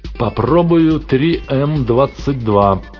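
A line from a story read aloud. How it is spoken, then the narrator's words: Roaring over static. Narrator (Russian): проревел он сквозь нарастающие разряды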